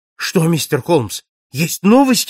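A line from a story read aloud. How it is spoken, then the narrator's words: Exclaiming. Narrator (Russian): воскликнул он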